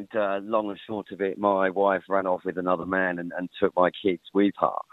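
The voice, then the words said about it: English accent. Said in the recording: “you may be able to tell from my accent, I'm an English lad”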